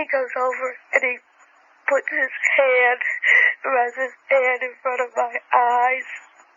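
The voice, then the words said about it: Boston accent. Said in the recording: “that Boston accent... It sounds like my Grammy.”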